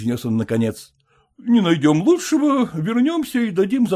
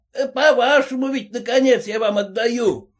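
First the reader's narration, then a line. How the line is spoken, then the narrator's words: Old man shouting again. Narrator (Russian): снова крикнул старичок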